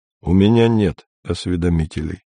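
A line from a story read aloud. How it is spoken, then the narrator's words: Cold. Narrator (Russian): холодно сказал Андрей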